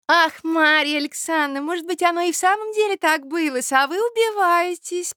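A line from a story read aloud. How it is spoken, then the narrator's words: Honeyed voice. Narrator (Russian): проговорила она самым медоточивым голосом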